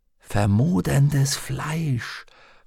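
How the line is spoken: Whispered. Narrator (German): flüsterte Lyra

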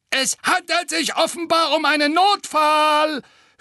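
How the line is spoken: Gargoyle sneering. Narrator (German): höhnte der zweite Wasserspeier

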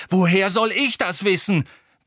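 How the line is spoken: Roar. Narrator (German): brüllte Harry

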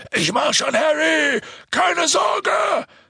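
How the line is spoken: Shouted. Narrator (German): schrie Hagrid

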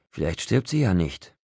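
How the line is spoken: Quiet thought. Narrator (German): dachte Seth leise

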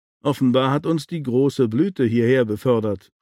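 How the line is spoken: Plain answer. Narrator (German): antwortete sie

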